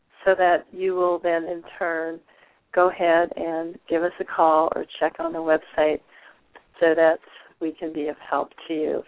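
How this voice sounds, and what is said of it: Voice not yet fully recovered. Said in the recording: “my voice is still working its way back... clear up my voice”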